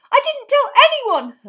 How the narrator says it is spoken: Hermione shrieked

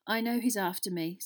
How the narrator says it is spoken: said Harry wearily

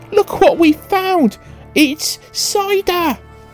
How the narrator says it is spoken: he cried out

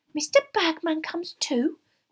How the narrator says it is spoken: squeaked Winky

